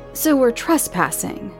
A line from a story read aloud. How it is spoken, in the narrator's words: Liz exclaimed